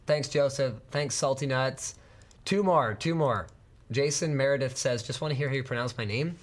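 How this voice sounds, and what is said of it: Voice sounds off, sick. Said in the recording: “why does your voice sound off? I'm sick.”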